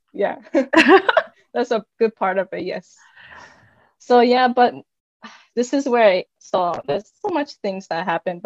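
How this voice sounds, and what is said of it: Japanese-accented English. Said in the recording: “That why you have this accent? I can hear this like Japanese.”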